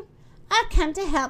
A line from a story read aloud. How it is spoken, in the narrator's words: she cried